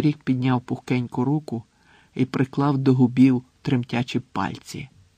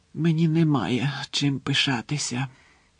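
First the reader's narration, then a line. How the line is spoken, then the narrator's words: Muffled whisper. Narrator (Ukrainian): прошепотів крізь пальці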